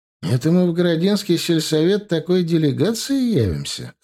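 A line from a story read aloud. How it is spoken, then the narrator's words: Chuckling. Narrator (Russian): хохотнул я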